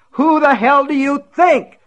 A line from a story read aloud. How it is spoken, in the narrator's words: He screamed